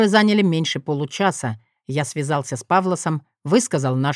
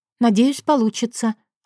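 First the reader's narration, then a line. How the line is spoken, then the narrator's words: Glad relieved exhale. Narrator (Russian): обрадованно выдохнула она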